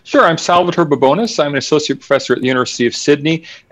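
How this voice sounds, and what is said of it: American accent. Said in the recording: “As you can hear from my voice, I am an American.”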